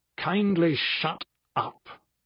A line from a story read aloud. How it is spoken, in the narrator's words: in his droll, cultured British voice, he said with uncharacteristic brashness